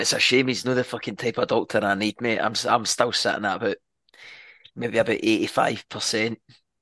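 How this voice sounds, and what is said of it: Hoarse, worn-out voice. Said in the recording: “my voice is gone... the voice is is, is gone by probably about twenty minutes into the first half”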